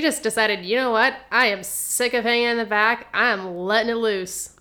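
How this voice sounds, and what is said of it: Usual voice. Nothing is said of it.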